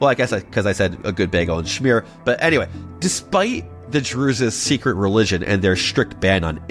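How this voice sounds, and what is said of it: Usual voice. Nothing is said of it.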